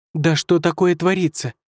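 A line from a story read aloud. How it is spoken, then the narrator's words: Exclamation. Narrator (Russian): воскликнула Шэньцзы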